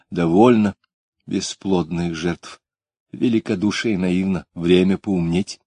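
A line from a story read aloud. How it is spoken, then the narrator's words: Quiet but commanding. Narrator (Russian): Тихо, но так, что все замолчали, сказала она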